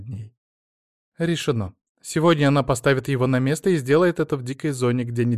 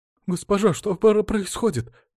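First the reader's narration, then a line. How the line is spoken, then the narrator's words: Frightened noblewoman's question. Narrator (Russian): испуганно спросила аристократка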